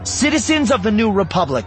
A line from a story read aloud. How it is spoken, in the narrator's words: she shouted